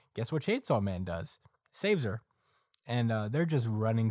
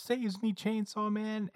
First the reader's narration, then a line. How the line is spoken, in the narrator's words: Asa yells